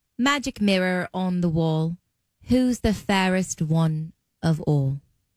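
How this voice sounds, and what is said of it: Good put-on British accent. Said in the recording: “Listen to Fallon do a British accent. It's really, really, really good. ... That was pretty good.”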